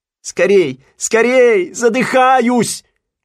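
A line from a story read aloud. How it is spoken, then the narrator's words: Shouting. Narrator (Russian): кричал Симпкинс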